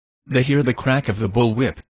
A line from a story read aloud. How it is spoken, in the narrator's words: said Woods